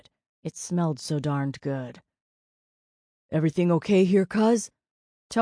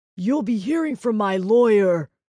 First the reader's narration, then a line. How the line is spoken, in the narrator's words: he shouted over his shoulder